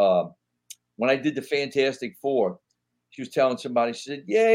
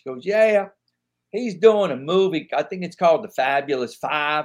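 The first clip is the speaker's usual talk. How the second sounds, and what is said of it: Heavy country accent. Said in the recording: “She got a real heavy country accent.”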